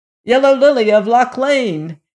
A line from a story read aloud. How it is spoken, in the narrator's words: he shouted again